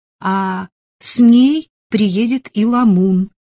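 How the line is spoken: Joyful addition. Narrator (Russian): радостно добавила Элизабет

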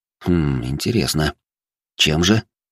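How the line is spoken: Plain. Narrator (Russian): спросил я

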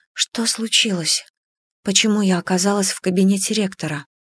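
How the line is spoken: Whispered question. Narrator (Russian): вопросила я шепотом

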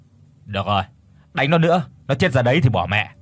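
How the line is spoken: Mild irritated snap. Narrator (Vietnamese): Thằng Bảo gắt nhẹ

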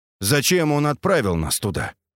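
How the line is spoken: Dry question. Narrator (Russian): сухо спросил я

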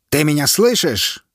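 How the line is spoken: Soldier's shout. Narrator (Russian): выкрикнул военный

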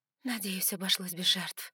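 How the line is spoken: Exhaled words. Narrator (Russian): выдохнула

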